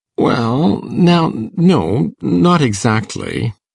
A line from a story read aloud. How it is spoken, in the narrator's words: said Matthew uneasily